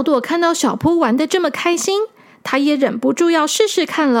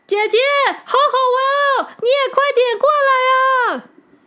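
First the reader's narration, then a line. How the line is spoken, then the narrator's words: Delighted child shouting. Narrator (Chinese): 小扑觉得很有趣，他忍不住大叫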